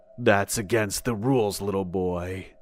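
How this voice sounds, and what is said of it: Deep male character voice. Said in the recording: “his deep voice said”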